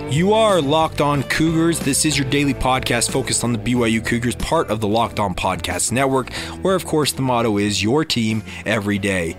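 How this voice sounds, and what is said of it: Hoarse, strained, recovering voice. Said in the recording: “my voice is very much in recovery mode... I could barely get through two or three sentences without my voice failing and cracking... definitely not back to 100%, as you guys can obviously hear in my voice today”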